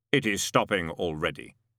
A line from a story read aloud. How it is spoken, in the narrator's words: he said